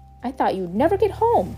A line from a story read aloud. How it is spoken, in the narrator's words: Pip exclaimed